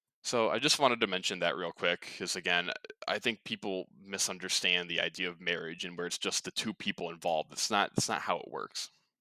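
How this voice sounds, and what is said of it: Raspy, sick-sounding, breathless, tired voice. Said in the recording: “Sorry if I still kind of sound sick or my voice is raspy or I'm out of breath... I apologize if I sound kind of exhausted”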